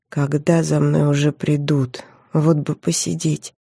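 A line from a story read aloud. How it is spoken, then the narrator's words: Quiet. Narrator (Russian): тихо сказала я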